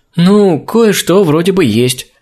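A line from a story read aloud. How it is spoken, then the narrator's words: Uncertain young woman. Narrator (Russian): неуверенно произнесла девушка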